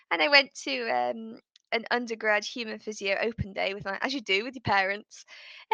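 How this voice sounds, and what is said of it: British English accent. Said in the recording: “because I'm in the UK, if people can't guess by my accent”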